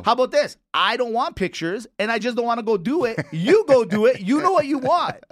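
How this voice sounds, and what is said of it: Yelling, raised angry voice. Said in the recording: “I don't know why you're yelling.”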